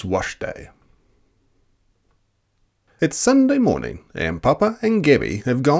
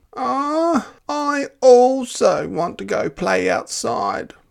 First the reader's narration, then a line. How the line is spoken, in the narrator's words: Ada moaned